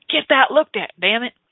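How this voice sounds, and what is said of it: Put-on Texas accent, bossy. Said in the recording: “a little bit of a Texas accent too, because my inner dominatrix is a little bit Texas right there”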